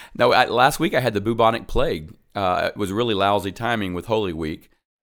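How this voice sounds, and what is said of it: Deep husky voice from illness. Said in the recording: “I have a great radio voice now, as it's still lingering”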